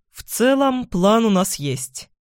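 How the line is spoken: Bored voice. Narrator (Russian): скучающим голосом заявляет Туманов

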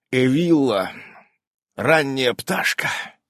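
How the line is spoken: Sleepy mumble. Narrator (Russian): сонно пробурчал Иннокентий

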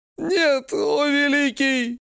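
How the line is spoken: Captive whining. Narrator (Russian): скулит пленник

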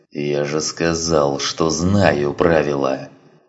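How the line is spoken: Growl. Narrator (Russian): прорычал Гроту

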